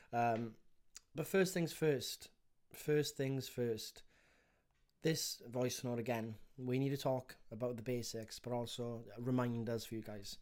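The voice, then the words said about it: Congested, blocked-nose voice. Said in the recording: “I got a blocked nose, so I sound a bit like a don't know what actually, but not the best”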